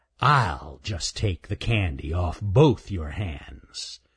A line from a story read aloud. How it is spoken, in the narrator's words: snarled Raker